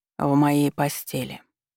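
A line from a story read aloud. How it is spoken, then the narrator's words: Calm. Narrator (Russian): заявил он спокойно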